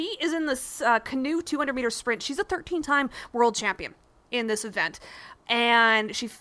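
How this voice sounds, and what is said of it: Usual voice. Nothing is said of it.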